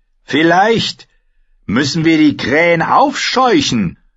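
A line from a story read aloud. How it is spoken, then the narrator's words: Shouting over noise. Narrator (German): brüllte Rasselhemd über den Lärm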